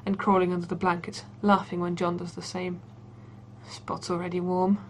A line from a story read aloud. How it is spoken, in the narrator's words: John grumbles